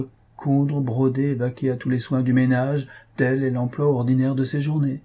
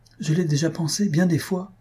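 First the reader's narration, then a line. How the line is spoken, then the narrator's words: Exclaimed. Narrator (French): s'écria Waldorf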